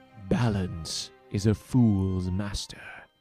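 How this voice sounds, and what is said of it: Deliberately bad imitation of a character's voice. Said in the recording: “my terrible impression”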